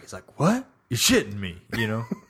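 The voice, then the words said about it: Impression of a movie character. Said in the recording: “Oh, that's a good impression.”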